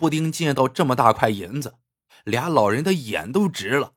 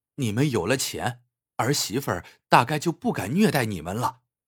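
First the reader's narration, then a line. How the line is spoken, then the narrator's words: Sighing. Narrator (Chinese): 小青叹了口气，说道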